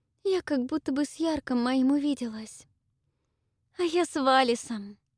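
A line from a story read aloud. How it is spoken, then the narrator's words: Happy tearful sob. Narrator (Russian): Счастливо улыбнулась Нана и всхлипнула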